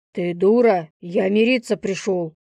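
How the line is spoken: Growl. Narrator (Russian): Прорычал

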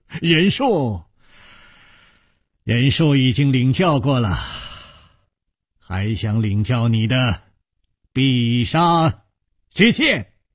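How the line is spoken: Smiling. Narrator (Chinese): 楚留香微笑着说

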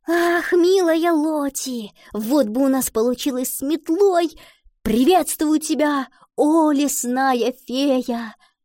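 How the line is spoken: Exclamation then giggling. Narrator (Russian): воскликнула Гретхен и захихикала

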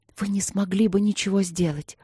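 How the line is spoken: Agitated whisper. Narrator (Russian): тем же взволнованным шепотом ответила графиня

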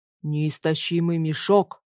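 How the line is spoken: Deep bass from above. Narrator (Russian): пробасил с высоты своего роста один из леших

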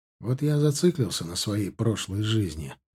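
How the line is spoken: Quiet. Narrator (Russian): проговорил я тихо

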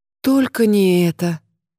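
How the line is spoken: Mournful groan. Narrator (Russian): простонала она тоскливо

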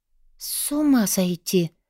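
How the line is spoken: Whispered. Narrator (Russian): прошептала я

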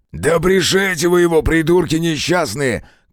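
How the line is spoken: Shouted. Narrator (Russian): крикнул кривоногий

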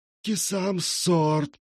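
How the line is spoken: Hissed. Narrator (Russian): прошипел Наг

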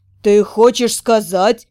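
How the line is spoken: Stunned mutter. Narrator (Russian): Ошеломленно пробормотал

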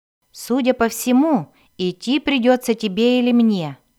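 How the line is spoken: Plain. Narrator (Russian): сказал Глинсатор

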